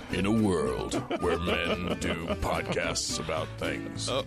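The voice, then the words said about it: Dramatic movie announcer voice. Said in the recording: “We're going full announcer voice here.”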